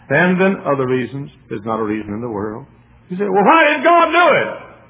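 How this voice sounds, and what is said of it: Southern US accent, snorting nasal voice. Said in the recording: “I've got, as you know, sinus trouble, and I snort like a bull half the time ... with my southern accent”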